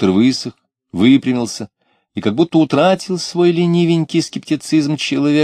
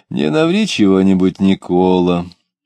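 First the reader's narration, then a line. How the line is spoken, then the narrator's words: Chuckling gentle warning. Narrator (Russian): Доктор Любомудров посмеивался, ласково предупреждал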